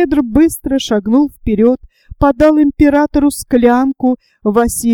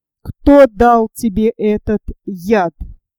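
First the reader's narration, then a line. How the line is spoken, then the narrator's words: Plain. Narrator (Russian): спросил Василий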